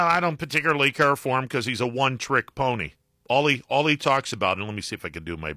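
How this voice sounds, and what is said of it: Usual voice. Nothing is said of it.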